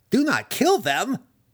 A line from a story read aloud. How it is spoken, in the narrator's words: Massage screamed